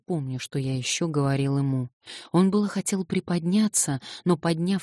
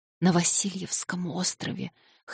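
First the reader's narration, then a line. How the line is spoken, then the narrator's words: Wheezing old man. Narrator (Russian): хрипел старик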